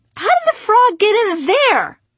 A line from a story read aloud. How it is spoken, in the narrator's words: my mother scream